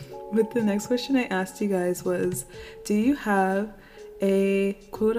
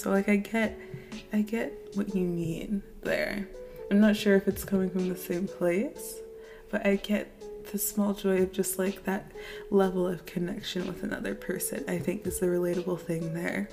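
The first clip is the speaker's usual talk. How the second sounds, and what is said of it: Creaky vocal fry voice. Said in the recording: “I don't know why I'm using Kardashian vocal fry right now. Let me stand up straight so I can project my voice properly.”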